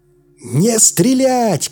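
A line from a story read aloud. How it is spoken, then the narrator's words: Shouted. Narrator (Russian): крикнул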